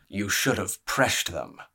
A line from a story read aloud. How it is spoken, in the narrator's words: rumbled Pentos Ken Pentos